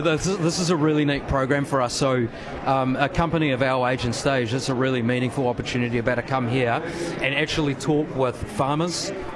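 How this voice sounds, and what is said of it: New Zealand accent. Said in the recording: “Pardon the accent, I'm assuming you're New Zealand based.”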